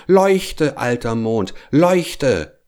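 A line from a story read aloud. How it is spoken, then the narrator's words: Called out. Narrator (German): rief er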